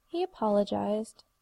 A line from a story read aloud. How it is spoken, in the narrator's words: Tara sighed